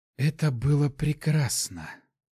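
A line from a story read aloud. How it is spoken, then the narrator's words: Barely whispered. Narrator (Russian): только и смогла прошептать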